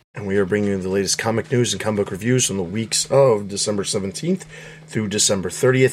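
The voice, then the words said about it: Strained, unwell-sounding voice. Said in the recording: “my voice is kind of messed up right now, and I'm not feeling super great”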